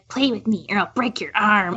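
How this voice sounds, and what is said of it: Good impression of child's dub voice. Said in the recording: “the dub voice of that kid ... that was a good impression.”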